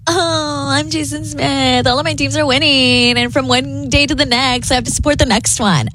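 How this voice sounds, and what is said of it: Valley Girl style impression. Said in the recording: “why are you going Valley Girl with my impression? ... that's not how I sound.”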